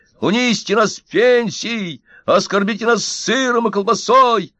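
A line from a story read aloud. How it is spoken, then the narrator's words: Crowd shouting. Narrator (Russian): Пенсионеры кричали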